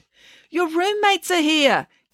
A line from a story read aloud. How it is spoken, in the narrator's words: Kate yelled through the door